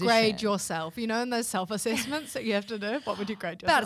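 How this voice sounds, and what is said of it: Strong New Zealand accent. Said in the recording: “my Kiwi accent is so strong”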